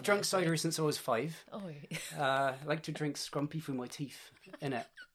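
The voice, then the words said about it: Exaggerated West Country English accent. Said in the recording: “You can tell by my accent, born in the UK, Bristol, Southwest ... Oh my God, in that accent.”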